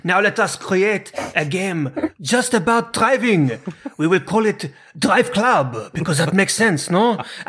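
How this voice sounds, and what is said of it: Put-on foreign accent. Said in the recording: “That accent was brilliant.”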